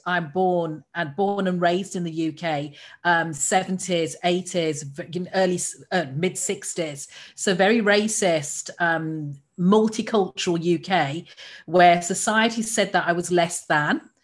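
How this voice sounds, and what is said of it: English accent. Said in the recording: “As you can tell, English accent.”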